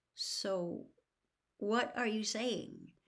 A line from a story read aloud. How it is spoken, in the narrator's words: said Harry slowly